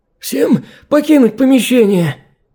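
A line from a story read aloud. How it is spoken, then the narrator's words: Hoarse voice. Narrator (Russian): Сиплым голосом выдвинул он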